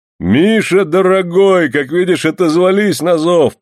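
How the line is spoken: Booming male voice. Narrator (Russian): прогудел мужчина

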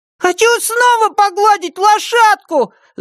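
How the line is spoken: Shouted. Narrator (Russian): закричал Блейк

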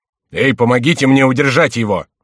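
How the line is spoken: Shouting. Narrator (Russian): закричал Генрих

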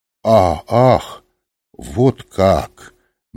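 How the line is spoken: Slow. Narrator (Russian): медленно сказал он

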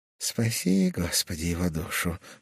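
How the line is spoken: Mumbled. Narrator (Russian): пробормотал Сиока

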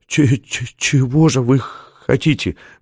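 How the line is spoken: Strained stammering. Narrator (Russian): выдавил он, заикаясь

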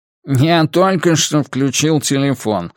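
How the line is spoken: Nasal. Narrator (Russian): гнусаво отозвался Нолин

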